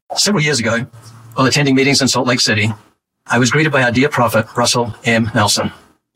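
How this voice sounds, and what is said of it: New Zealand accent. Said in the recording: “is he an Aussie? Sure or maybe he's I from New Zealand. ... He has a wonderful accent. It is New Zealand.”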